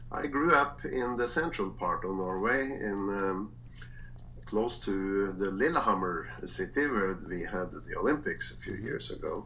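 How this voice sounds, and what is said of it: Norwegian accent. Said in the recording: “I'm from Norway, and you can probably hear that. At least the accent is something I'm not trying to change.”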